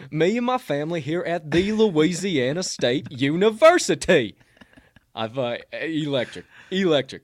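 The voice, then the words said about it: Put-on Southern accent. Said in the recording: “fake Southern accent”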